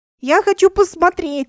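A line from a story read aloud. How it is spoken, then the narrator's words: Yelling. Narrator (Russian): вопила она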